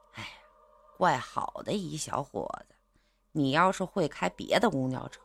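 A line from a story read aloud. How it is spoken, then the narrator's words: Sighing, meaningful. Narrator (Chinese): 他还叹了口气，意味深长的说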